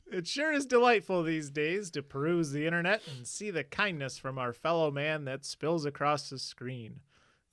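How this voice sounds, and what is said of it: Sarcastic tone. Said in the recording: “You're being sarcastic.”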